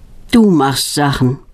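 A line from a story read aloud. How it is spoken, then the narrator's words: Sigh with a smile. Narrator (German): seufzt Knut und lächelt fast gleichzeitig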